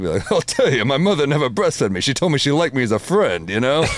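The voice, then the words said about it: Imitates another person's voice. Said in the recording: “doing a Rodney impression”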